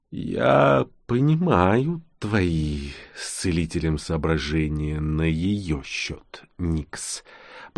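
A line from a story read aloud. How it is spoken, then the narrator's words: Smug contented purr. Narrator (Russian): промурлыкал Нкот на манер большого, сытого и самодовольного котяры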